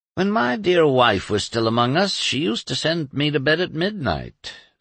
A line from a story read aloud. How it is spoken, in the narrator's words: sighed Dr